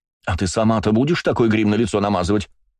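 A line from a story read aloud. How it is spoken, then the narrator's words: Snapped. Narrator (Russian): огрызнулась Эланор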